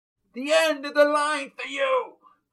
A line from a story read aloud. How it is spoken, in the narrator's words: From the outside, maybe down the next street, someone with an accent shouted